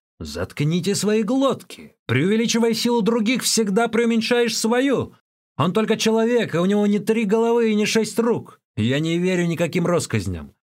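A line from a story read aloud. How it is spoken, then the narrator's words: Indignant shout. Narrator (Russian): Возмущенный Чэнь Да закричал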